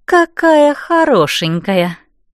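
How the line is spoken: Predatory purr. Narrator (Russian): хищно мурлыкнула Лиала

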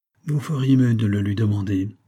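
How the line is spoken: Sullen. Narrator (French): dit-il d'un ton maussade

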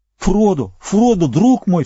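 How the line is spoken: Near-sobbing cry. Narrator (Russian): вскричал Сэм, почти рыдая

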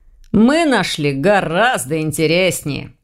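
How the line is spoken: Smirking snort. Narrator (Russian): хмыкнул Ваня

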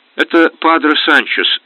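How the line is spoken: Exclamation, barely contained joy. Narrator (Russian): воскликнул, еле сдерживая радость

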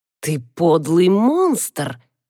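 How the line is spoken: Hissed. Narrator (Russian): прошипел он

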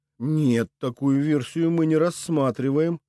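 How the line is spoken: Gentle, tactful answer. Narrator (Russian): мягко стараясь не ранить хрупкое эго собеседника, ответил я

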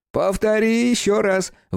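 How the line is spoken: Shouted. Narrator (Russian): выкрикнул Витька

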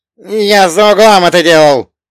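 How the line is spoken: Barked. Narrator (Russian): рявкнул Томазина

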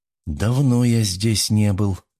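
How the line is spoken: Sleepy mumble. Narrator (Russian): промямлил Фергюс все еще с закрытыми глазами

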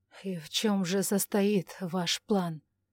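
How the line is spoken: Grim muttering through teeth. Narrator (Russian): мрачно процедил он

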